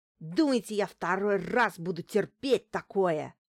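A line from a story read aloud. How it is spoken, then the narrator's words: Spluttering hiss. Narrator (Russian): Брызгая слюной, прошипел шофер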